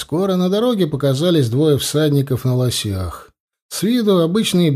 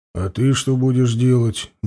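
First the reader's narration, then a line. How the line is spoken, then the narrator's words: Gruff grumble. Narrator (Russian): буркнул Анил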